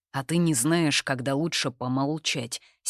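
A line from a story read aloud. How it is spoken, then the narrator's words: Angry curt. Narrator (Russian): сердито бросает Конор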